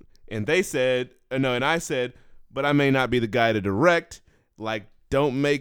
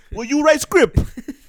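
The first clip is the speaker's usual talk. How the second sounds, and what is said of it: Imitated Asian accent, broken English. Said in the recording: “that sounded like an Asian person was in there ... Did that little racist accent ... I was doing Olivia Munn's accent of her mom”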